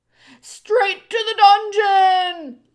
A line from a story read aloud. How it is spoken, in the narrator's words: another voice shouted